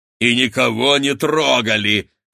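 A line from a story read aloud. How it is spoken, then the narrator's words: Deep bass, sputtering. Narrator (Russian): пробасил Рагнеда, отплевываясь от пены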